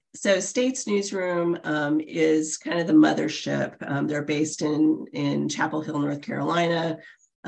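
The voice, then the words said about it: Scratchy voice from a cold. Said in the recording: “my voice is going to be scratchy. I'm coming off the end of a 4-day cold. ... I sound worse than I feel”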